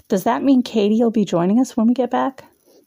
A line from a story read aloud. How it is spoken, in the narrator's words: Someone called out